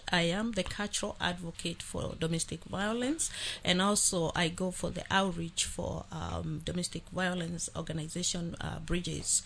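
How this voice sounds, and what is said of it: Slightly different non-native accent. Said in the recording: “Maybe you hear my accent is a little different.”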